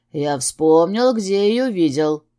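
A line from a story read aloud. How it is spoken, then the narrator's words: Through gritted teeth. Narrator (Russian): процедил Дэн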